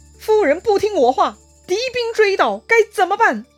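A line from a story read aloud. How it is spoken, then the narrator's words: Anxious stern voice. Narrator (Chinese): 敌军的喊声是越来越近了，赵云也急了，声音呢也变得严厉了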